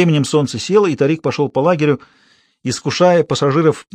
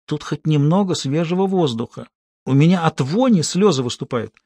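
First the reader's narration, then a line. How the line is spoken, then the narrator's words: Whispered. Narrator (Russian): Кайла прошептала матери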